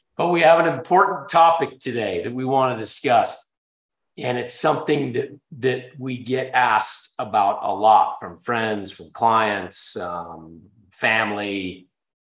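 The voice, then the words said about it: Sick, under-the-weather voice. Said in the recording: “I'm a little bit under the weather, as you can probably tell in how my voice sounds.”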